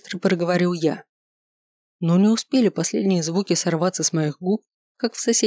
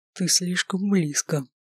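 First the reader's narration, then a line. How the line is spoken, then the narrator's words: Whisper. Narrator (Russian): прошептал Маркус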